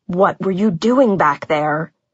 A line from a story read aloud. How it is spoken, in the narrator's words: His volume was low, his tone furious